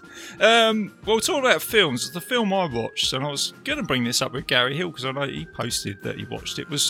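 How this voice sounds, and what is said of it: English accent, eloquent-sounding. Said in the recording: “God knows where you think my accent is from. I've been caught sights before. I sound like Vinnie Jones. ... You sound like a more like eloquent Vinnie.”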